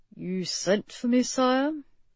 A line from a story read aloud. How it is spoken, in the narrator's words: Gifford murmured